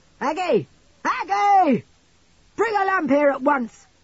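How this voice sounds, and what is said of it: Loud yelling voice. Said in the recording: “yelled out in a tremendous voice,”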